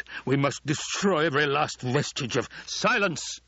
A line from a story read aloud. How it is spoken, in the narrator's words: The Emperor roared